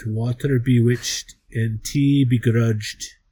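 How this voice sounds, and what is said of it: Put-on Irish accent. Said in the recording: “the Irish accent.”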